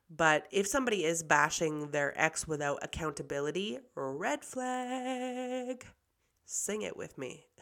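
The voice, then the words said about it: Hoarse voice. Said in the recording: “My voice is hoarse.”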